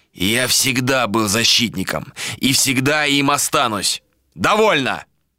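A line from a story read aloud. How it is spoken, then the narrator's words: Barked shout. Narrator (Russian): гаркнул Адер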